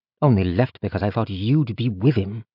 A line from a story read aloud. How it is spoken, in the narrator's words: Yeren muttered